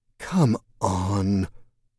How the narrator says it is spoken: the woman said, her voice almost sad

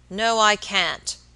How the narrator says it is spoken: answered the baker, growing very red in the face, and speaking in an unnecessarily loud voice

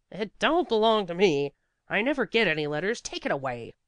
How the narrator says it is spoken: said sharply

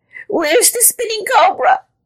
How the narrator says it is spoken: he cried

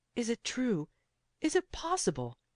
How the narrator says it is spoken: he cried

